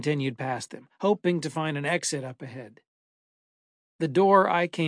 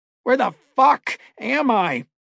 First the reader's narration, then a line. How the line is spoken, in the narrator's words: I shouted in rage and fear